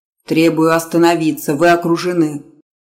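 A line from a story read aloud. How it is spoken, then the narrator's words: Furious growl. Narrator (Russian): зарычал яростно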